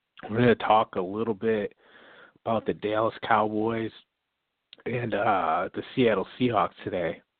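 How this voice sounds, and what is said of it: Hoarse, strained voice. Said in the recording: “I'm losing my voice a little bit”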